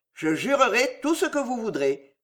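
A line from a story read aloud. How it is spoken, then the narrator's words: Very calm. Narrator (French): dit Pardeillan d'une voix très calme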